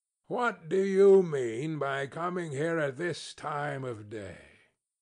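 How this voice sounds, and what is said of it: Gruff growling old man's voice. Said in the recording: “growled Scrooge in his accustomed voice, as near as he could feign it”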